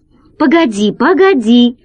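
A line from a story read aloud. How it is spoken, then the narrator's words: Exclaiming. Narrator (Russian): воскликнул Гайдо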